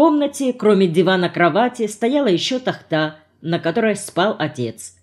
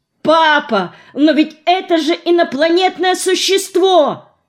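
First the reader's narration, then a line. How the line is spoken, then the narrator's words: Frantic shout. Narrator (Russian): Вне себя закричал я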